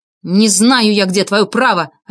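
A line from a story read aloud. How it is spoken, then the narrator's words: Snapping retort. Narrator (Russian): огрызнулся я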